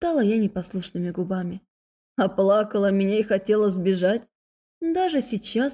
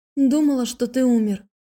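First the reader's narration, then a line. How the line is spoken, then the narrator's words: Breathless, unfamiliar voice. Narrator (Russian): выдохнула я, не узнав собственный голос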